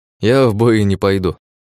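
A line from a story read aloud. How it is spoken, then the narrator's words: Snort. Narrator (Russian): хмыкнул я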